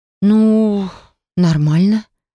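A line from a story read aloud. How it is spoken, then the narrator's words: Uncertain, confused. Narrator (Russian): неуверенно ответила я, толком не понимая, как себя вообще вести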